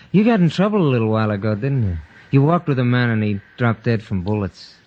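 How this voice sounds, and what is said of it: American accent. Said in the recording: “you've got quite an American lilt to your voice”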